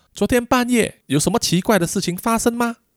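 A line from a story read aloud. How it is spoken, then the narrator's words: Loud question. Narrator (Chinese): 阿派就大声的问他说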